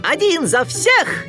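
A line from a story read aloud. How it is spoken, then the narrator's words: Joyful shout. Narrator (Russian): Микки радостно выкрикнул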